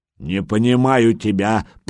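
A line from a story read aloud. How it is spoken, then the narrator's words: Growled by a big lad. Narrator (Russian): прорычал детинушка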